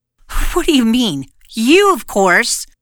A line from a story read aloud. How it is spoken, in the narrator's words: exclaimed